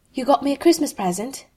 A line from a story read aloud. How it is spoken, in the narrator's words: he asked Malfoy, a bit breathlessly